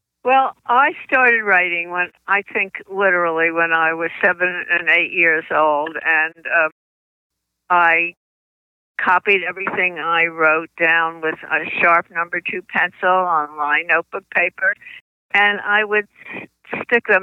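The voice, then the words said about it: New Jersey accent. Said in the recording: “I still have my New Jersey accent.”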